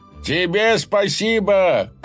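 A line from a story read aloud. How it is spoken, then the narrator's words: Shout after someone. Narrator (Russian): крикнул ему вслед лавочник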